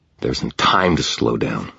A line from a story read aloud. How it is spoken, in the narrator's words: Michael muttered